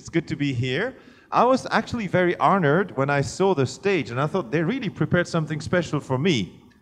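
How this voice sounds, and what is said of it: French accent in English. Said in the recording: “You'll have to cope with my accent. My mother tongue is French, so I do my best in English.”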